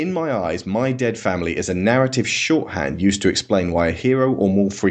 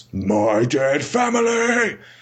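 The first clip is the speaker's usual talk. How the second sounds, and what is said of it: Gravelly dramatic voice. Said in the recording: “delivered in that gravelly voice”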